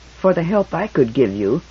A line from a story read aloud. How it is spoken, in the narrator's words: he muttered